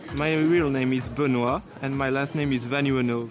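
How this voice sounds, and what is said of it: French accent. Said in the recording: “French accent.”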